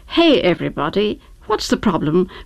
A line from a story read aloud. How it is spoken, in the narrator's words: query